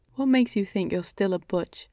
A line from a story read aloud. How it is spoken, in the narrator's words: asked sarcastically